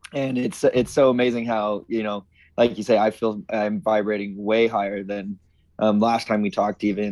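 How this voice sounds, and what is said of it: Slightly trembling voice. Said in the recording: “my voice is a little like trembly, because I'm just like, ooh, I'm ready to talk about this stuff”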